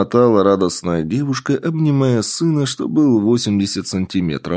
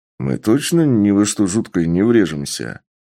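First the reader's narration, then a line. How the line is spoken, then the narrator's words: Anxious grumbling. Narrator (Russian): Ворчал встревоженный Сергей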